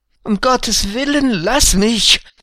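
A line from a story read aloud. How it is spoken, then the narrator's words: Pleading. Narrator (German): flehte Hagebuck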